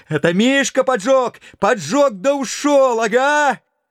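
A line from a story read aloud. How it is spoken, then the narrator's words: Agitated shouting. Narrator (Russian): дядя Яков … кричал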